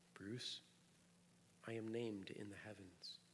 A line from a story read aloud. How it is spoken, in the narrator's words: Bobby said very quietly